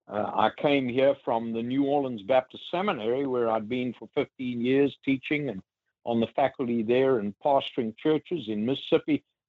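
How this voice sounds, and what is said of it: Mississippi Southern US accent. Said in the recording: “I have a Mississippi accent”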